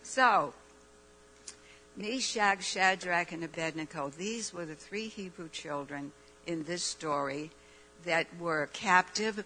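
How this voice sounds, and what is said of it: Raspy, weak voice. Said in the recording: “my voice is so raspy. I wish it was strong like my son, but it's not. And it's getting worse.”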